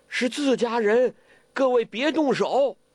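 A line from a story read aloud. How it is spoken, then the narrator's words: Surprised loud call. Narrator (Chinese): 完颜康 暗暗的吃惊，高声叫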